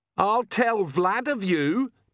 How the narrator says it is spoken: Perdita screamed in Agnes's voice

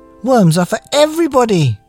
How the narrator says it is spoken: cried

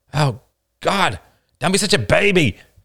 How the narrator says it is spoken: cried Ain in frustration

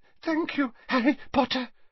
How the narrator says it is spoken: he panted

